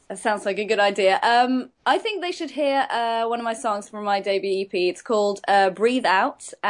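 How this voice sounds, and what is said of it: English accent. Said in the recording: “Her accent is because she's from England”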